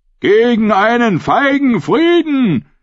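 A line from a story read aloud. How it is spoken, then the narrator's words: Roar. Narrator (German): brüllte Ralf der Hinker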